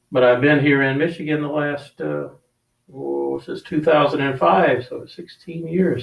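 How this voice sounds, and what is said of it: Southern American accent. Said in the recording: “I grew up in South Carolina, so I apologize for the accent. It's very Southern.”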